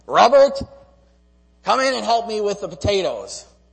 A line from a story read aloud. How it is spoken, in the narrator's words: my grandma would yell from the yard